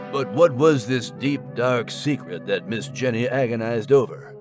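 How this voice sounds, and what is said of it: Dramatic detective narrator voice. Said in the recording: “Do your detective voice!”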